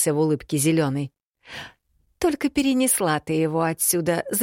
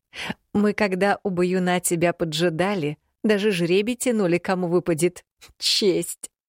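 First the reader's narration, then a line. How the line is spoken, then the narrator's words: Short laugh. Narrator (Russian): хохотнул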